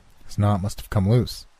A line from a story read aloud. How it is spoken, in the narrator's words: Arthur said